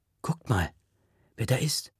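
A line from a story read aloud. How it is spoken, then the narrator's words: Whispered. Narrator (German): flüstert Faiz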